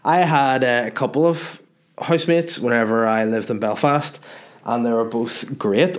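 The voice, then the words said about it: Northern Irish accent. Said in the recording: “a Northern Irish accent ... my accent”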